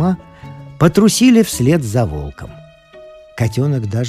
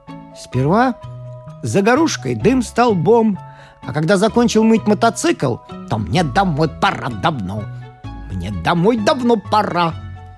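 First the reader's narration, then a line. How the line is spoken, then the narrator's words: Old man, thoughtful. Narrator (Russian): Дедушка Крот задумчиво произнес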